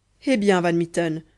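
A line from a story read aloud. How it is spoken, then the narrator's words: Crying out. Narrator (French): s'écria Kéraban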